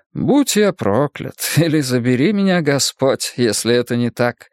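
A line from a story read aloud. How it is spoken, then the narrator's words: Laughing. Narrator (Russian): Он рассмеялся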